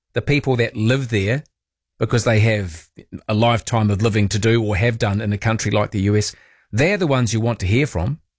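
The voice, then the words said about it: New Zealand accent. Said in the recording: “my very unusual New Zealand accent”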